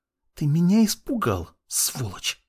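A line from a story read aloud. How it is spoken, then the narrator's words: Hissing young woman. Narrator (Russian): прошипела девушка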